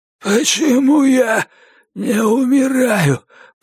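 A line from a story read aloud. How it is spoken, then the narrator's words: Hoarse wheeze. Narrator (Russian): прохрипел он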